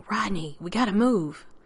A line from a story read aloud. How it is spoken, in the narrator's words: his voice hissing